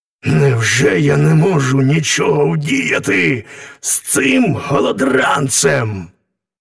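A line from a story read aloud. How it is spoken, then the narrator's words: Helpless groaning thought. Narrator (Ukrainian): Правитель аж застогнав від безпорадності і подумав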